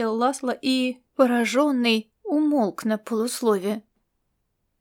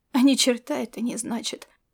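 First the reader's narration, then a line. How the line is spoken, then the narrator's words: Sad, to himself. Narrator (Russian): грустно сказал он себе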